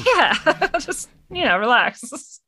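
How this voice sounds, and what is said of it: Alien voice with Canadian accent. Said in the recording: “Why did my alien sound Canadian?”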